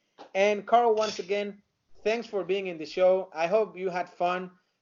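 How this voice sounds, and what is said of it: Noticeable non-native accent. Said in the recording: “just because of my accent that I know it sucks”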